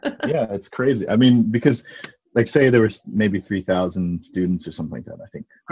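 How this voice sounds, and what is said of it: American accent. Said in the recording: “So it was very American ... this is why I sound like this ... This is why I've been cursed with this accent”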